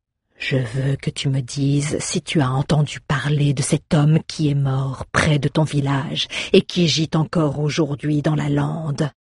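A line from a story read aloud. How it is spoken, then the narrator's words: Grave, menacing question. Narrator (French): demanda Sultor d'une voix grave et menaçante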